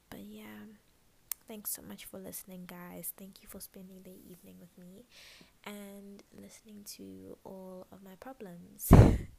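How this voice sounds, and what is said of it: Quiet, sleepy, hushed voice. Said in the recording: “I feel like I'm doing my sleepy voice... it sounds like my sleepy voice, my quiet voice, my I'm trying not to disturb people voice”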